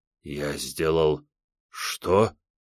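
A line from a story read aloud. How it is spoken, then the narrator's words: Dull, bewildered question. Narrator (Russian): глухо переспросил миллиардер не понимая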